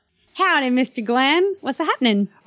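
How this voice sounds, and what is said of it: Put-on Western accent, slightly Asian. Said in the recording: “did you catch my little Western accent? ... With the Asian thing thrown in there?”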